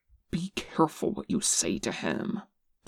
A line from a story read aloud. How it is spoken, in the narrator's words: Top hissed